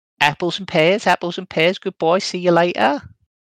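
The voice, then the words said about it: Bad attempt at Welsh accent. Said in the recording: “do a hilarious imitation of his accent ... God, that's awful ... Why is he Scouse? ... I was going for Welsh.”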